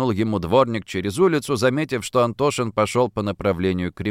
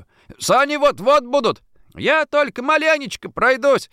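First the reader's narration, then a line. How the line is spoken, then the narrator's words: Shouted reply. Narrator (Russian): крикнул ему в ответ Антошин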